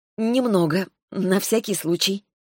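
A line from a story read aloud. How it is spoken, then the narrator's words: Forced smile. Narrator (Russian): я выдавила улыбку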